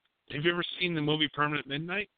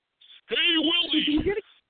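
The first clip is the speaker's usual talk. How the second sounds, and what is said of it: Imitates an alien TV character's voice. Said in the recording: “my very elf impression ... That sounds fantastic”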